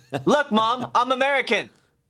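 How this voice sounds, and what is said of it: Imitated American accent. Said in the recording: “Asian man doing an impersonation of an American.”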